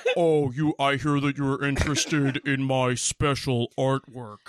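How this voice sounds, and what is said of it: Deep, pitched-down character voice. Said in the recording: “voice is pitch shifted down ... it's pitch shifted down ... He sounds ridiculous.”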